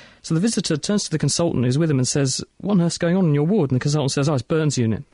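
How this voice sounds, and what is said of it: Usual voice. Nothing is said of it.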